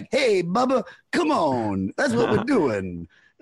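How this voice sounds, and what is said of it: Cheesy DJ-style voice. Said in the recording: “He sounds like a DJ”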